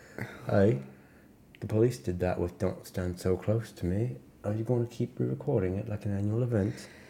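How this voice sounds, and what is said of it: Soft British accent. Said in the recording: “I'll do a soft British accent.”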